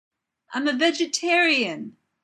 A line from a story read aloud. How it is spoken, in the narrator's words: the alien screams